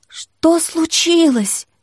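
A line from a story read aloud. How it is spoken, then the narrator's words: Trembling voice. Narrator (Russian): Дрожащим голосом спросила пустота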